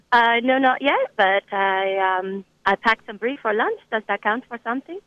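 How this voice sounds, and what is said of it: French accent. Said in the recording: “the French accent. That's very good.”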